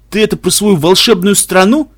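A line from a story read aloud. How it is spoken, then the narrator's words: Asked with a chuckle. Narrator (Russian): спросил Дюк и хохотнул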